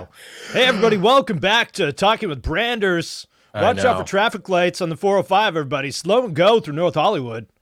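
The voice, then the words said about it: Energetic morning radio DJ voice. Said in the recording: “I need to put on my Morning Zoo radio voice.”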